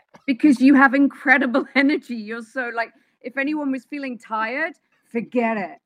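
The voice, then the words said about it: English accent. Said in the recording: “You got an accent. ... I'm originally from England. ... So, London, but in London, I'm from Wimbledon.”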